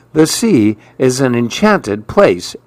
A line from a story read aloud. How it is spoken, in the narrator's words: exclaimed Mirabelle